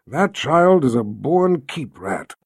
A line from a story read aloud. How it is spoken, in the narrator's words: Zed sighed